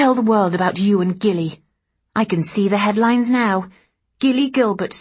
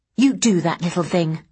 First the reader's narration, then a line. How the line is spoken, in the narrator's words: I snapped